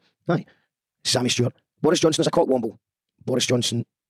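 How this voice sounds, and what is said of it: Usual voice. Nothing is said of it.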